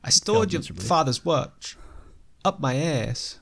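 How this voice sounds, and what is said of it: Christopher Walken impression. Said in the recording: “Christopher Walken ... I was actually practicing a Walken impression for a while”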